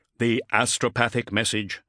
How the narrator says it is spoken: Cestus stated coldly

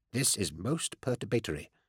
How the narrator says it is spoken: murmured

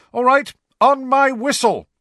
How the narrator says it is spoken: shouted Angelina

